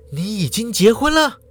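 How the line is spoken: Nervous breathless question. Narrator (Chinese): 淑华就紧张的喘口气，就问

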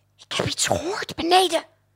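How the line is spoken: Whispered in ear. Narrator (Dutch): fluisterde in zijn oor

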